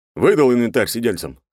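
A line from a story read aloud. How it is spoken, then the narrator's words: Plain. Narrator (Russian): спросил подчиненного Журавлев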